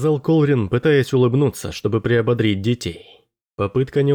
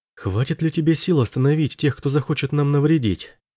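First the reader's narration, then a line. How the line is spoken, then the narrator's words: Plain. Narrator (Russian): спросила она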